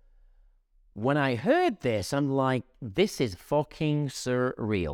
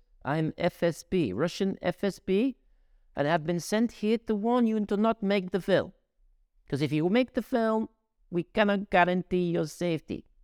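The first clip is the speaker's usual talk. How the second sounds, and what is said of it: Bad put-on Russian accent. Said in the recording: “it's my bad Russian accent”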